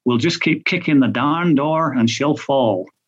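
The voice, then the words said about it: Put-on American country accent. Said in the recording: “I don't know why I've given him a country accent there, if he's from California.”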